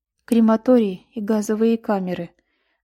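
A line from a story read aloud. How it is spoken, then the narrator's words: Lifeless voice. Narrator (Russian): каким-то неживым голосом откликнулась Мейдели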